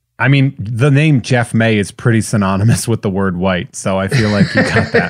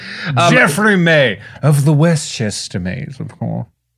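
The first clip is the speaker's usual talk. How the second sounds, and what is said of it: Put-on frumpy American Northeast accent. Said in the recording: “your frumpy American Northeast accent. That was perfect.”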